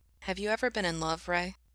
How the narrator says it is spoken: G asked quietly

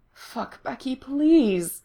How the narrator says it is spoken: Lindsay groans

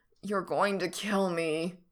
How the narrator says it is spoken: Frank groans

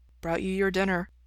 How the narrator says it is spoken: Ray says softly

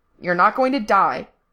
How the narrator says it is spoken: Frank snapped

